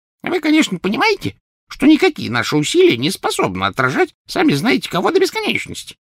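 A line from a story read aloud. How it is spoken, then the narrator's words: Squeaky. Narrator (Russian): пропищал Флитвик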